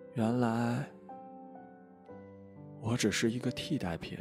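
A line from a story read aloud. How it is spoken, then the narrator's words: Trembling voice after pause. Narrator (Chinese): 良久之后，声音颤抖的说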